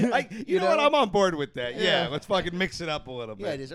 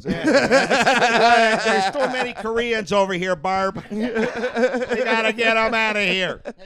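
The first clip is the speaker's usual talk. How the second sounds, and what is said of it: Put-on Midwestern accent. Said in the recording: “change the idiot racist accent to the Midwestern accent”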